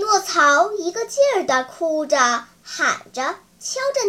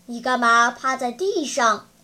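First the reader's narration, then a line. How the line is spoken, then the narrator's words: Plain. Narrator (Chinese): 他们问匹诺曹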